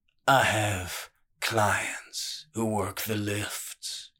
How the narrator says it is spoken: Killam rumbled

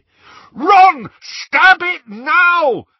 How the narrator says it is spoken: Harry bellowed

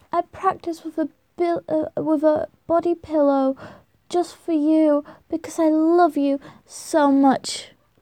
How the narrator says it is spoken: They begin to moan in sync with each other and both at the same time moan

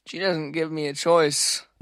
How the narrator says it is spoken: he grumbled

